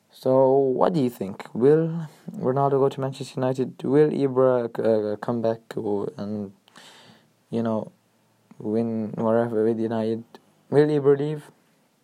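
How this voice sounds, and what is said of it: Rough, unwell-sounding voice. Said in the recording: “Sorry about my voice, it's still a bit rubbish because of my infection.”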